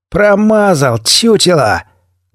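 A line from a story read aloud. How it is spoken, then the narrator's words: Loud mocking shout, fake laugh. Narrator (Russian): Громко, с издевкой, крикнул бандит, фальшиво расхохотался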